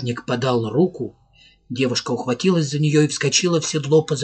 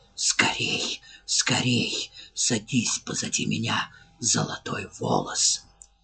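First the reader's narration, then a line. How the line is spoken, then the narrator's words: Muffled whisper. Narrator (Russian): глухой шепот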